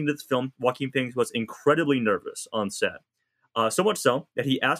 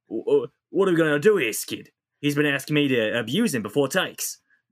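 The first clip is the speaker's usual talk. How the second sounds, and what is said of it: Put-on New Zealand or Australian accent. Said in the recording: “should I try to do a New Zealand or Australian accent here?”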